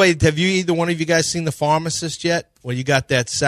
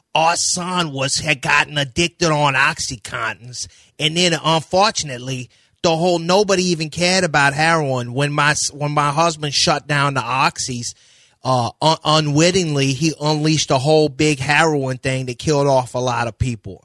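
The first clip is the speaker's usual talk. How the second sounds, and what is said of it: Imitated New Orleans Yat accent. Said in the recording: “Chalmette accent, which is what I knew as Yats. Where Yat? That's a Yat accent. ... The Chalmette and his wife sound like this.”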